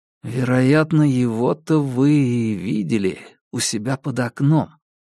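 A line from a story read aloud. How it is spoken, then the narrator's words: Quiet. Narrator (Russian): тихо промолвил я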